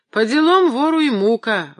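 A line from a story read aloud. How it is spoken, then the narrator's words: Grumbling. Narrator (Russian): ворчала Марфа Семеновна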